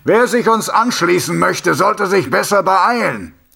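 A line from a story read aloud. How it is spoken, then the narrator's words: Calling out. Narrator (German): rief er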